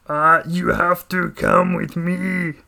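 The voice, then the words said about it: Imitates another person's voice. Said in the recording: “You guys want to hear my Arnold Schwarzenegger voice? ... do the voice. Come on, try to do the voice.”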